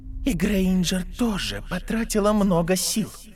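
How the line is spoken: Whispered inner voice. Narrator (Russian): прошептал голос внутреннего оппонента

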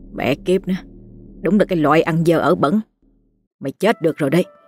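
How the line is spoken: Disgusted muttering. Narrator (Vietnamese): ông nhăn mặt, miệng lẩm bẩm

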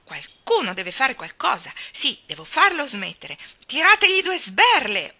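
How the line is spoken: Frantic screaming. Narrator (Italian): urlò fuori di sé

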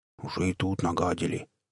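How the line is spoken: Barely audible grumble. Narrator (Russian): еле слышно пробурчал кто-то

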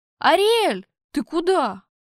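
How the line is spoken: Confused shout. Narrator (Russian): растерянно крикнул вслед я

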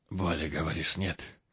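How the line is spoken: Hoarse, breathless question. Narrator (Russian): В паузах между вздохами хрипло спросил он

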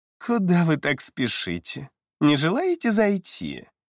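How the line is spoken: Cooing demoness. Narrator (Russian): Проворковала демоница

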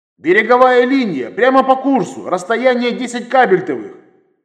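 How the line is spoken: Nearly shouted over loudspeaker. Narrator (Russian): Практически прокричал я в микрофон громкой

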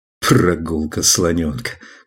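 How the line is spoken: Laughing. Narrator (Russian): Клай рассмеялся

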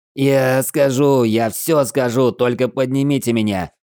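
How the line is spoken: Howling suit speakers. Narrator (Russian): взвыли динамики в скафандре генерала

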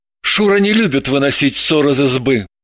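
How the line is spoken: Breathed out. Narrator (Russian): выдохнул

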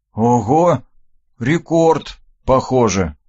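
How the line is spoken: Sighing. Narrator (Russian): вздохнул

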